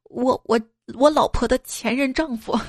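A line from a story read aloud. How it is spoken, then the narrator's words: Choked up, sobbing. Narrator (Chinese): 男子调整了下情绪，然后哽咽的说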